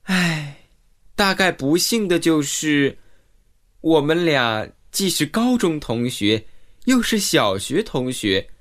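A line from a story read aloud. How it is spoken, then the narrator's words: Sighing. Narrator (Chinese): 兰西叹息道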